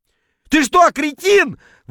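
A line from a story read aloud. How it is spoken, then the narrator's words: Yelling while spluttering. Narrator (Russian): вопил я на поверхности, шумно отплевываясь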